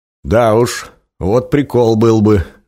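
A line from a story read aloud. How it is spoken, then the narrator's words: Loud laughter. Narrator (Russian): захохотал Женя, представив себе такую картину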